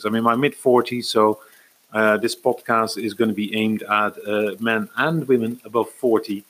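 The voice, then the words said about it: Non-native English accent. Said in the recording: “as you can hear in my accent, I'm not a native English speaker”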